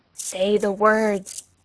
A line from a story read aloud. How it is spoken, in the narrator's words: The thing in the dark repeated in a louder tone